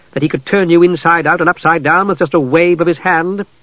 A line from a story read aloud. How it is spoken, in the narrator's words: said testily